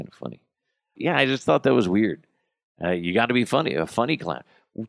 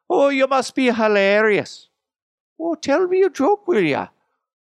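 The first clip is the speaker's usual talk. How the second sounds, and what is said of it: Bad put-on Irish accent. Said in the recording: “That's a really shitty Irish accent... Why am I going up like that?”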